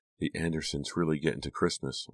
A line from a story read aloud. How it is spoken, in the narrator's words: Lila said softly